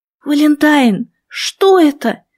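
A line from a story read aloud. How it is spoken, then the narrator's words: Exclaimed. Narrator (Russian): воскликнула я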